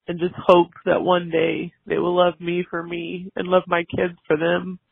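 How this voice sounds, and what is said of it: Emotional, choked-up voice. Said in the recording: “Sorry, I got emotional.”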